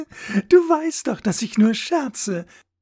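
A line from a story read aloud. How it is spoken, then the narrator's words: Giggling reply. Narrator (German): entgegnete sie kichernd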